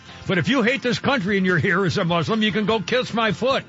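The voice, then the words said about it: Yelling, loud angry delivery. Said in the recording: “Why am I yelling again?”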